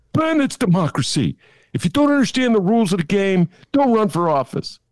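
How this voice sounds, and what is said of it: Put-on Chicago accent. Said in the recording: “That's my Chicago accent”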